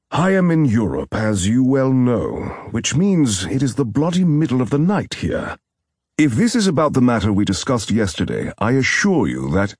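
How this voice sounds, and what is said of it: Heavy British accent. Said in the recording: “he answered in a heavy British accent.”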